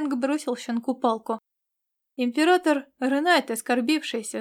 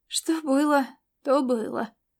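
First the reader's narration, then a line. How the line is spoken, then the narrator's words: Sighing. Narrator (Russian): Ирвинг вздохнул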